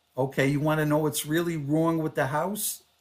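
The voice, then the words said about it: Slight New York Long Island accent. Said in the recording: “the husband had a little bit of a New York, Long Island accent.”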